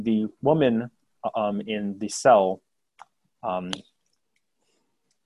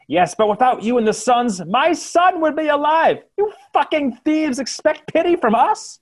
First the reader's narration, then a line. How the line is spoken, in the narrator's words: A different civilian shouts out